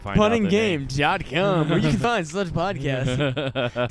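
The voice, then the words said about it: Exaggerated radio announcer voice. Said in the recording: “I love doing that fucking radio announcer voice. It's so fucking dumb.”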